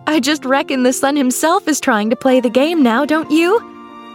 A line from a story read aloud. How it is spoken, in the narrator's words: She cried